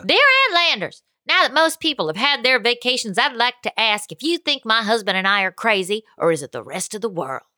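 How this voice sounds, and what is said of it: Put-on Texas accent. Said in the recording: “I'll do it in a Texas accent.”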